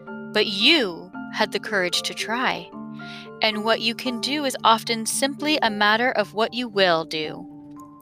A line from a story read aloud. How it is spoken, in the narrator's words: said Reason gravely